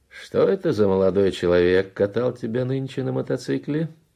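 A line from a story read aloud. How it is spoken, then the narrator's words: Cheerful inquiry. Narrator (Russian): весело осведомился Раполос Кунчинос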